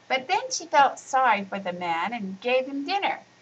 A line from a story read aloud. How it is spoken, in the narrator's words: chirped in Shala